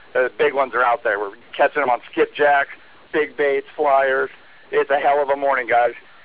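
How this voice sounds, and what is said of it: Excited, energetic voice. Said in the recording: “as you can tell by my voice, we're pretty excited.”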